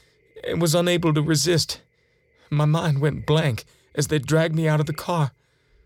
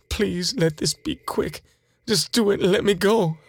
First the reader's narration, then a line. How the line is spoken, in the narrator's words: I begin to whimper